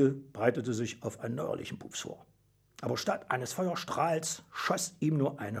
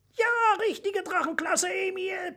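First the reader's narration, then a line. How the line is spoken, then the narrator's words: Squeaky mouse voice. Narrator (German): piepste das Mäusel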